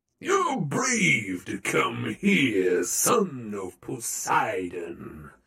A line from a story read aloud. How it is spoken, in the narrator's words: he said in an oily voice